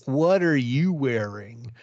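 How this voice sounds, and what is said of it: Deliberately bad American accent. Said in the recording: “I was trying to do a bad American accent, and that was still better than Lynskey's”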